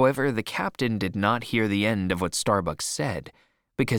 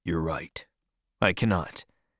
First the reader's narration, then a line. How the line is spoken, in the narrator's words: said Starbuck quietly